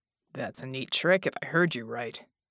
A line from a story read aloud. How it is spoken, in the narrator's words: Jack grunted